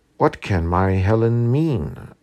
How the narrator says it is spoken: replied Lady Ruthven

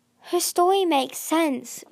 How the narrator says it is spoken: Riptide said desperately

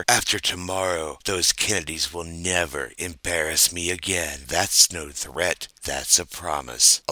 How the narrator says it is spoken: LBJ whispered into her ear

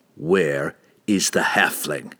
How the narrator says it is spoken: Drizzt snarled

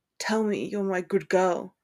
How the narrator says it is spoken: Draco rasped into their kiss

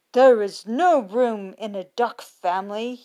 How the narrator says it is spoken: said sternly

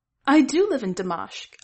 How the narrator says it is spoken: Amat exclaimed

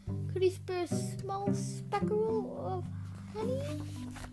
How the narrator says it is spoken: pleaded

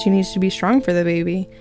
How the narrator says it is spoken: said

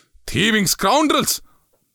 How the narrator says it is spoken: bellowed again

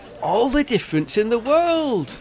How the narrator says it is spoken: reply excitedly

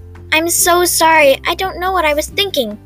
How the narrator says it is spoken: Tammy cried

